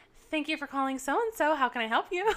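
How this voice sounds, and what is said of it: Higher-pitched polite phone voice. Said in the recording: “phone voice? ... It does it go like an octave higher?”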